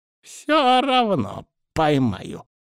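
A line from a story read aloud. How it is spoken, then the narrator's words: Healer's angry deep voice. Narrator (Russian): злобно пробасил лекарь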